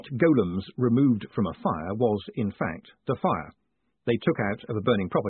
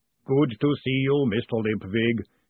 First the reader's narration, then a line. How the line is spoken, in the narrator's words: he boomed cheerfully